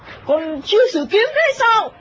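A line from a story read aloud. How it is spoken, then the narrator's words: Feigned irritation. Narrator (Vietnamese): Lệnh Hồ Sung gắt giả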